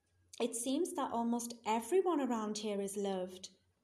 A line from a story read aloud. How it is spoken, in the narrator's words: said James